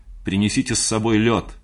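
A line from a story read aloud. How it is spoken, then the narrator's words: Shouted after someone. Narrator (Russian): крикнул я ей вдогонку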